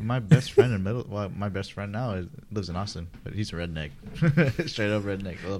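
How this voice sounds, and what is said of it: Usual voice. Nothing is said of it.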